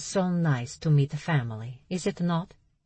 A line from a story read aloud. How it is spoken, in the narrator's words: she asked with an Italian accent